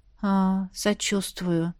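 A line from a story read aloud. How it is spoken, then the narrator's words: Quiet reply. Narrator (Russian): тихо ответил Джульен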